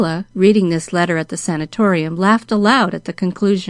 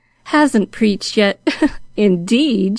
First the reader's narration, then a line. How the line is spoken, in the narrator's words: she chuckled to herself